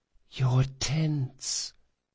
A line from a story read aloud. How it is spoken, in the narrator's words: whispered Felice